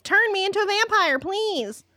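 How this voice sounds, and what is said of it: Imitates another person's voice. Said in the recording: “that's a good Slater impression.”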